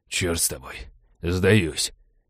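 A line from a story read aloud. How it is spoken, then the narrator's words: Exhausted hoarse wheeze. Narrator (Russian): обессиленно прохрипел череп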